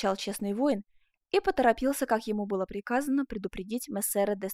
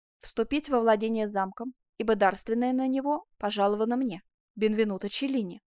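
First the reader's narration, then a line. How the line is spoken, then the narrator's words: Plain. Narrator (Russian): ответил воятель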